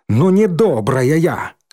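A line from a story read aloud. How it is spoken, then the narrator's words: Angry. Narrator (Russian): зло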